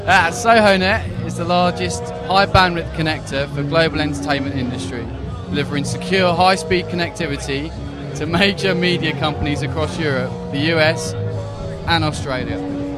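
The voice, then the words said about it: Believable put-on English accent. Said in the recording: “That's pretty good, actually. I think that's a believable English accent.”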